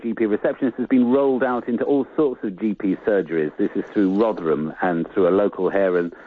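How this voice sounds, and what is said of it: Usual voice. Nothing is said of it.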